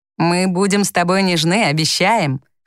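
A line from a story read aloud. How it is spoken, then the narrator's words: Chuckling. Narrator (Russian): хохотнул Тони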